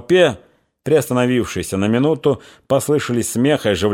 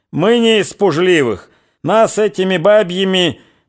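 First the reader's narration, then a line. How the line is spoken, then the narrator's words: Merry laughing shout. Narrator (Russian): Он почему-то пришел в веселое расположение духа и, смеясь, кричал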